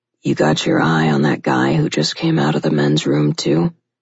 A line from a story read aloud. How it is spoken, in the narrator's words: Mason asked in a low voice that was equally tense